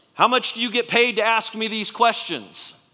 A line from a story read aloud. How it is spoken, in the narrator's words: he finally shouted back at the guard